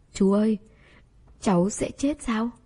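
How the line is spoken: Frightened trembling voice. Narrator (Vietnamese): Cô gái nhỏ cực kỳ sợ hãi, giọng run run hỏi

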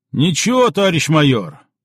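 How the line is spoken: Soothing growl from behind. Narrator (Russian): успокаивающе прорычал откуда-то из тыла бурмистров

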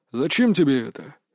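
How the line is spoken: Scoffing. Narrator (Russian): хмыкнул Дмитрий

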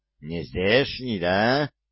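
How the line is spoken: Growling. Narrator (Russian): прорычал легавый

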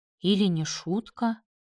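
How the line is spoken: Mutter. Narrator (Russian): пробормотала она

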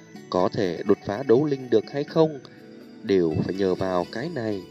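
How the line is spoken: Soft voice. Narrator (Vietnamese): Tiêu Viêm nhẹ giọng nói

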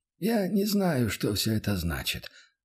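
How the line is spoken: Sighed. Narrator (Russian): вздохнул

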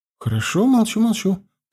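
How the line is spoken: Mumbled. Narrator (Russian): пробормотала

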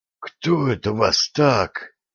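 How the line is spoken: Hoarse wheeze. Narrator (Russian): просипел Виталий

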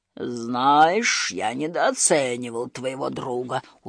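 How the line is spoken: Respectful grumble. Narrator (Russian): уважительно буркнул он

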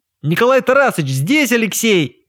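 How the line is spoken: Shouted nearby. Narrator (Russian): прокричал рядом Луцис

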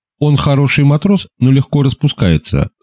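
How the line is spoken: Plain. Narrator (Russian): сказала

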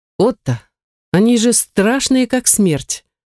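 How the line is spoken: Low-voiced remark. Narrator (Russian): вполголоса заметила она

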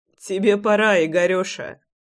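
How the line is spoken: Short laugh. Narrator (Russian): хохотнул я

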